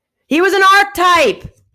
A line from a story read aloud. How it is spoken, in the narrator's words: she shouted out of challenging her oldest foe, unseen but very real in her face always